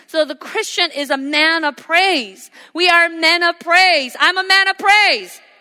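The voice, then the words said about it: Shouting preacher. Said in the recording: “I'm shouting.”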